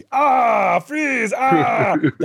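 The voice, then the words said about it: Impression of Arnold Schwarzenegger's Mr. Freeze. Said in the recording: “This is my impression of Arnold in this movie.”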